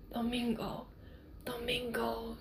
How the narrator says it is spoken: whispered

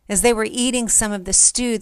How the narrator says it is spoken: they cried out and said

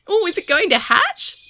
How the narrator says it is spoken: Tominori squeaked

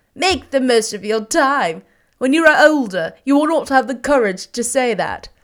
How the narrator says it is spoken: said one of the gentlemen who had laughed most heartily

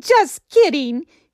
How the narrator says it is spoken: would say as he burst into laughter

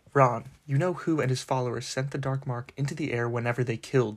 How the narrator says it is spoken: said Mr

